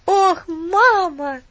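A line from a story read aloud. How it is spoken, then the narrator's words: Grateful exclamation. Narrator (Russian): с благодарностью воскликнул Дикон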